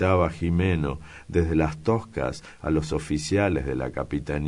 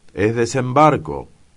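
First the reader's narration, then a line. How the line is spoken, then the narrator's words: Several voices shouting. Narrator (Spanish): gritaban otros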